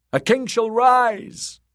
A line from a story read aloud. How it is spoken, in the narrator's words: the drowned men cried